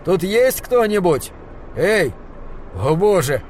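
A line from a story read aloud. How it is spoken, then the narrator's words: Shouted. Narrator (Russian): он закричал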